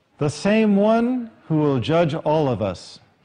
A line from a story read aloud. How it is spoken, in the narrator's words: he said